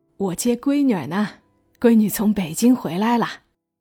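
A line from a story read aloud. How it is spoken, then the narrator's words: Cheerful greeting. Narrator (Chinese): 父亲笑着打招呼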